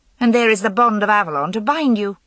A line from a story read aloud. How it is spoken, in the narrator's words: said Guinevere, a little more sharply than she intended